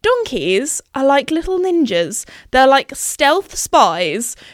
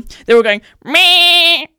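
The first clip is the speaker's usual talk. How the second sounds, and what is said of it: Imitates sheep bleating. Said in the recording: “my best sheep impression”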